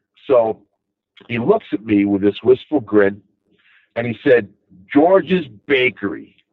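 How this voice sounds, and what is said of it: Long Island accent. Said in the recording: “here's my accent, and he's like, you know, you're from Long Island.”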